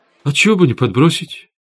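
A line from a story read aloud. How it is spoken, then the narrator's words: Sad agreement. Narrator (Russian): печально согласился Рома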